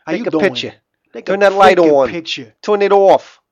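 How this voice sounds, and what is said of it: Heavy put-on Jersey accent. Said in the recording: “when you do your heavy Jersey accents, I laugh out loud ... What is that accent?”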